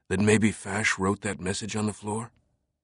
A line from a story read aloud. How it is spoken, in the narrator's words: whispered